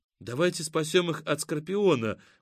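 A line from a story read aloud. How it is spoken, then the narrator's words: Excited exclamation. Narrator (Russian): воскликнула Катя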